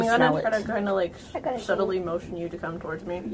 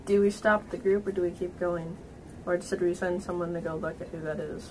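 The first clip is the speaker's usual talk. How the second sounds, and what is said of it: Hushed, quiet voice. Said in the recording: “In a hushed voice.”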